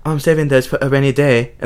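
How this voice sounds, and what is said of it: Random put-on accent. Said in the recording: “that's not the accent at all. I'm just putting on any random accent.”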